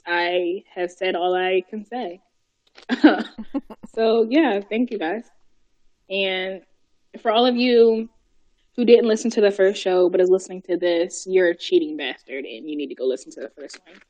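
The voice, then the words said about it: Tired, worn-out voice. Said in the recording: “You can tell by my voice that I'm pooped.”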